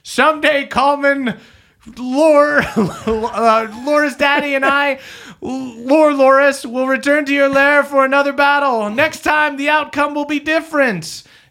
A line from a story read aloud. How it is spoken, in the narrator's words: The halfling shouting